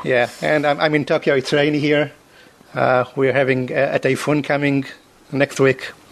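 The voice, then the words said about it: Non-native English accent. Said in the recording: “I apologize for my accent, because I'm obviously not a native English speaker”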